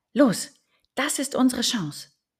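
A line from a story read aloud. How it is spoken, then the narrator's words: Calling out. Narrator (German): rief er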